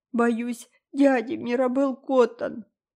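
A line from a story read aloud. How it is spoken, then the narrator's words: Sobbing. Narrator (Russian): продолжала всхлипывать Дора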